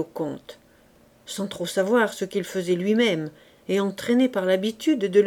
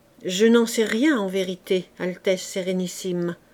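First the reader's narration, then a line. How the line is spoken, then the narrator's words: Dying, exhausted reply. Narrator (French): répondit de l'air d'un homme qui rend le dernier soupir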